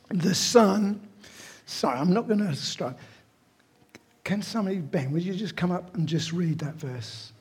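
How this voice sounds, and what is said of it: Hoarse, strained, nearly lost voice. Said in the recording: “my voice is gone”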